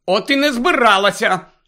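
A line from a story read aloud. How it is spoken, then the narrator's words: Angry shout. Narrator (Ukrainian): сердито крикнула вона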